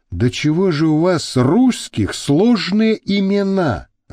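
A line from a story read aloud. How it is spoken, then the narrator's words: Sighing. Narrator (Russian): вздохнул Альберта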